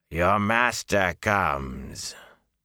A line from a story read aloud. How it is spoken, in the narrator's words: the Murdral's voice rasped like a dry snakeskin crumbling